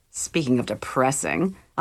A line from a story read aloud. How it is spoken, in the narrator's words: muttered